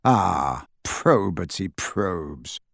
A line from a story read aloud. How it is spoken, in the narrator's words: sighed Travers theatrically